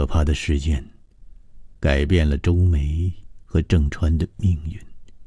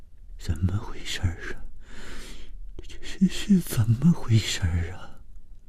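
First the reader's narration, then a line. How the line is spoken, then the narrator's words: Trembling voice. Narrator (Chinese): 谭小颖声音颤抖地说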